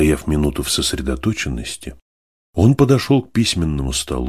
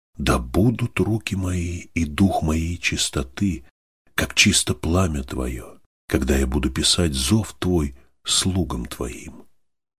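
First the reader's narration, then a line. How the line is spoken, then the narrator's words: Whisper. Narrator (Russian): его шепот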